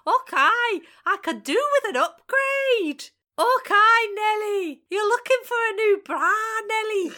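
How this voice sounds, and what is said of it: Attempted Scottish accent. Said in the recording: “I can't do a Scottish accent.”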